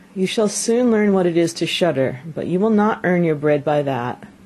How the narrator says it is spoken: The father sighed, and answered him

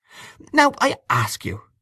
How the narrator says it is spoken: she said almost testily

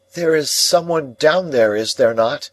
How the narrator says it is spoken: I called out

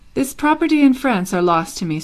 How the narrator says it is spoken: said the nephew sadly

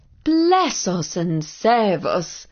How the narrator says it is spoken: exclaimed the mother, and for some minutes she was so astonished

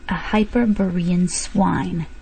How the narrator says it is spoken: he hissed forcibly

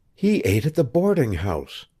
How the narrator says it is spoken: she whispered

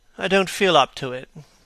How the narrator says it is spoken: said Dorian wearily

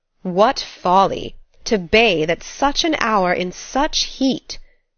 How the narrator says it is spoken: exclaimed Mr

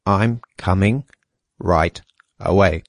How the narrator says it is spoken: said Gregor slowly and deliberately

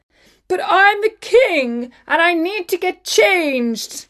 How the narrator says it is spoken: shouted His Majesty as he stood shivering

